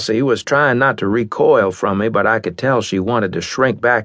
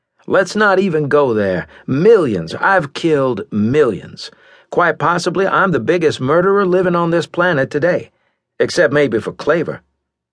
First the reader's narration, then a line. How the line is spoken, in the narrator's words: I continued, laughing ruefully